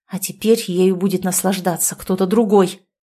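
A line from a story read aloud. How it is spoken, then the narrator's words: Angry speech. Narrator (Russian): зло сказал Демид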